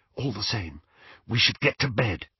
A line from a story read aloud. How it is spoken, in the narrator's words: whispered Hermione